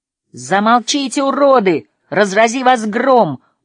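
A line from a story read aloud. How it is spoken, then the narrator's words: Angry shout. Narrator (Russian): гневно закричала Настя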